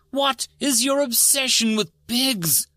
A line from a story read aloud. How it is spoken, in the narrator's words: New screeched